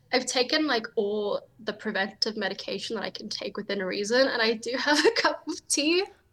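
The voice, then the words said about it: Congested, sniffly flu voice. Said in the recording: “I do have the flu... if I sound like a chipmunk that's drowning... if it gets a bit sniffy”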